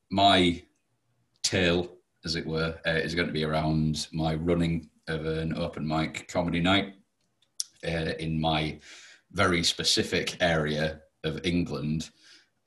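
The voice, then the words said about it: Yorkshire English accent. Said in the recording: “this isn't a British accent. This is what is called a Yorkshire accent... this isn't an Australian accent... It's just very common, shall we say. This is sort of our equivalent of a yokel or a hick”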